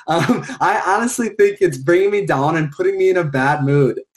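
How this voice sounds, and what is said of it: Thick regional accent. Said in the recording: “your accent was beautiful right there when you said down. I can't even do it. It was so thick, but I love the accent.”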